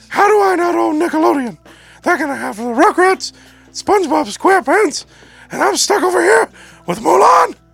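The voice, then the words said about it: Imitated Mickey Mouse cartoon voice. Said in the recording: “Oh, that's your Mickey Mouse voice. ... I don't think that's a very good Mickey Mouse.”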